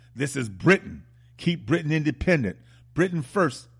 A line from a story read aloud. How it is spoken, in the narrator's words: The man convicted of killing her, a Caucasian supremacist obsessed with the Nazis and in apartheid era South Africa, shouted